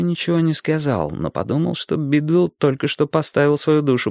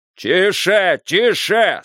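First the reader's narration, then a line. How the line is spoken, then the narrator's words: Loud drowning-out shout. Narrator (Russian): снова закричал Бидуэлл, стараясь заглушить страшное слово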